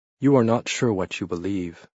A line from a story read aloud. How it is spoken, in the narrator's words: Maria said sadly